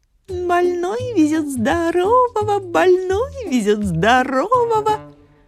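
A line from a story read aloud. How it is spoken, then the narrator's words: Quiet giggling singsong. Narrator (Russian): А лиса потихоньку хихикает и поет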